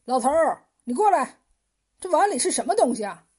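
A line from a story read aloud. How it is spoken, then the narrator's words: Sudden shout. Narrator (Chinese): 一个客人突然叫起来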